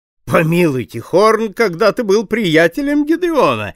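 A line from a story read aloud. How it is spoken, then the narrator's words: Playful exclamation. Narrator (Russian): игриво воскликнул мистер Гэллоп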